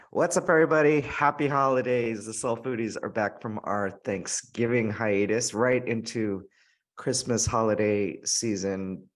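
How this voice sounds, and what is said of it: Hoarse, scratchy, talked-out voice. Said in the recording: “As you can tell by my voice, there's been a lot of potlucks and parties and gatherings already. I'm like all talked out and my throat is like not my non-COVID infected throat ... don't get scratchy.”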